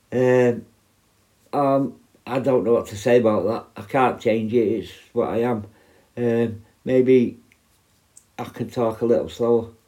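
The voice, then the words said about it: Strong, hard-to-understand accent. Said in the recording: “I had a few from America saying that they needed subtitles to understand my accent”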